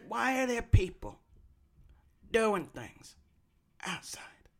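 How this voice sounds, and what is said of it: Imitates another person's voice. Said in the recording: “That's how he sounds. ... I did the best impression of him that's ever been done. Not true, but pretty close.”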